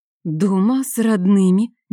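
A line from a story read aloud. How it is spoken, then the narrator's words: Slow drawl. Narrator (Russian): медленно протянула Алексия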